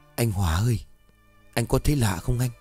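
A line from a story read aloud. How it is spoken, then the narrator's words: Soft whisper. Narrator (Vietnamese): cậu Kiên khẽ thì thào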